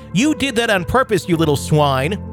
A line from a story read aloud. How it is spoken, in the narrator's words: Rose shouted